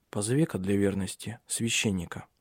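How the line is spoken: Quiet. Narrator (Russian): тихо сказал ему

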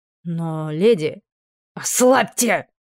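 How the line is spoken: Fierce commanding bark. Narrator (Russian): рявкнула так, что мужчина не посмел ослушаться

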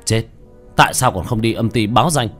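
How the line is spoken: Cold stern shout. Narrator (Vietnamese): Tiểu Thất lạnh giọng quát lên

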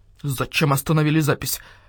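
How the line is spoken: Displeased grumble. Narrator (Russian): недовольно проворчал Мухтар

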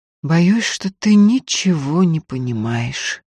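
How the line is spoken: Tired. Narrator (Russian): устало сказал Никита

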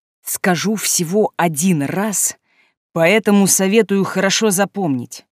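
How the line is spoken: Through gritted teeth. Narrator (Russian): процедил Диан

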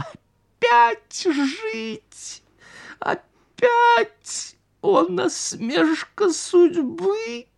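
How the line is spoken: Wild laughter. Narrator (Russian): карась побледнел и дико захохотал

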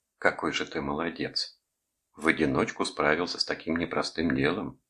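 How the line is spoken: Warm praise. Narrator (Russian): похвалила меня Нидзико

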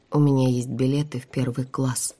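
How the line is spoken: Slow. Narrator (Russian): медленно произнесла я

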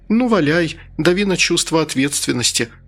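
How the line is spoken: Forced smirk, near tears. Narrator (Russian): ухмыльнулась я, хотя отвернуться и рыдать мне хотелось больше, чем веселиться

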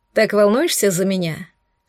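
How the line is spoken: Ironic snort. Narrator (Russian): с иронией хмыкнул я

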